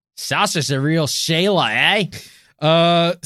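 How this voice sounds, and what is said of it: Put-on Australian accent. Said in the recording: “You say Sasha like you're doing your Australian accent.”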